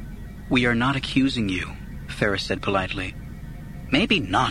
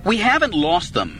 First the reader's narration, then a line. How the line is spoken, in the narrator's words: Anakin snapped